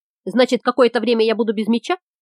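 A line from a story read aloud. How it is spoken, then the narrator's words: Plain. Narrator (Russian): спросил Сашка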